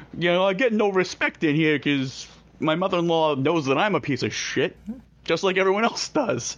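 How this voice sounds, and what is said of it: Imitates another person's voice. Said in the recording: “Top-notch Rodney impersonation.”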